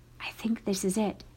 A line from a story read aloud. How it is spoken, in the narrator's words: he whispered